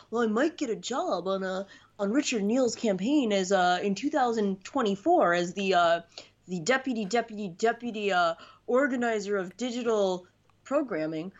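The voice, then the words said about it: Mocking impression of a party operative. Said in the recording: “your Democratic hack impression”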